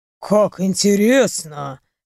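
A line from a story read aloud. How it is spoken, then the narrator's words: Amused snort. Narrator (Russian): хмыкнул он через мгновение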